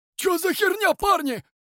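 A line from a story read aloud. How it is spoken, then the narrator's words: Bandit shouting. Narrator (Russian): крикнул один из бандитов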